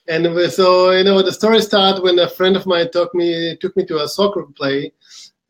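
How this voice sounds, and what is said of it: Israeli accent. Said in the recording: “we started the company in uh, Israel ... This where my accent from”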